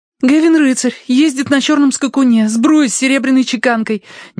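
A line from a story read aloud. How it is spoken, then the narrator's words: Rapid chatter. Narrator (Russian): тараторила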